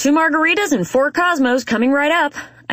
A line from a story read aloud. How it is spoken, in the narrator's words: I yell from behind the bar to Bree, the waitress on the other side